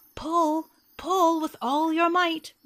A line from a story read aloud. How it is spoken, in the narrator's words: Rabbit shouted after him